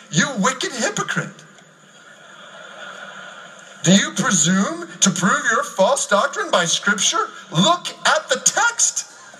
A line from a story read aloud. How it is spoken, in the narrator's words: White, the fisherman, cries out to the priest